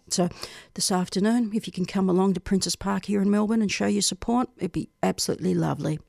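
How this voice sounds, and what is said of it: Tired, weary voice. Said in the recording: “you could probably tell by my voice, I'm just really tired. I'm emotionally tired”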